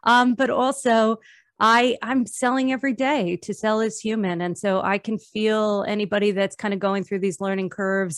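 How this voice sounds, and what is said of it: New Jersey accent. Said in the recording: “you have a cool New Jersey accent ... I do have a cool New Jersey accent.”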